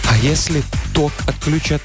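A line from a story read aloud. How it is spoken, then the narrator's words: Whisper. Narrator (Russian): прошептала Юля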